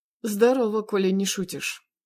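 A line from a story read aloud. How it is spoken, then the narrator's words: Smirking snort. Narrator (Russian): хмыкнул он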